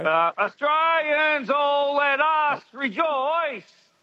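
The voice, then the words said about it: Singing with exaggerated, stretched vowels. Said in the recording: “you really lean into those vowels tonight”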